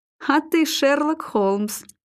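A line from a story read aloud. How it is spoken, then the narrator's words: Forced through laughter. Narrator (Russian): выдавил конюх сквозь смех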